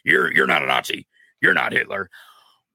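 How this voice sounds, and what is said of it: Impression of Alex Jones. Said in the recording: “my best impression”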